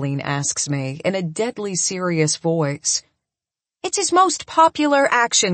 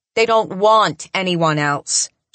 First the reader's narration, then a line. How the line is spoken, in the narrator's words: she says firmly